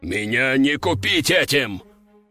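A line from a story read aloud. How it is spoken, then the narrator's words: Growl. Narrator (Russian): рыкнул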